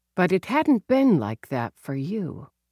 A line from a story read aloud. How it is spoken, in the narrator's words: she murmured